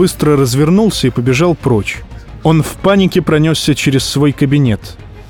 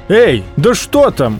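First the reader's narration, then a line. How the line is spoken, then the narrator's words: Shout. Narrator (Russian): крикнул Том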